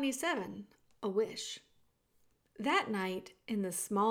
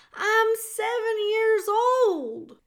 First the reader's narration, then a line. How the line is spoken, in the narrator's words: shouted Meg